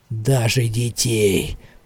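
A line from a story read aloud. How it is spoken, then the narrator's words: Mumble. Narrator (Russian): пробормотал он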